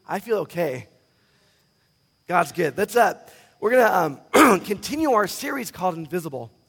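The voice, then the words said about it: Strained, nearly lost voice. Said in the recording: “my voice is almost gone”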